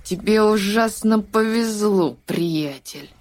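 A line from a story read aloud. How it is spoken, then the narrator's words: Boy, through gritted teeth. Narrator (Russian): процедив сквозь зубы, отметил мальчик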